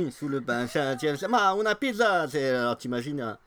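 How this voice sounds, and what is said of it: Usual voice. Nothing is said of it.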